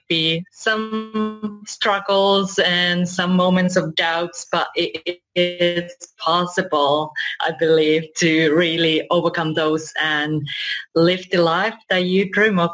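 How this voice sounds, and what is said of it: Finnish-influenced international English accent. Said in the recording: “this accent is from, it's all over the world, but originally I'm from Finland”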